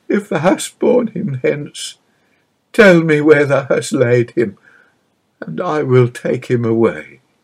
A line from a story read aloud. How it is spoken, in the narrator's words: she sobbed pathetically